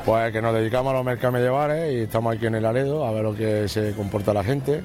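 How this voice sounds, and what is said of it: Andalusian accent from Jaén. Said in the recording (Spanish): “ese acento jienense”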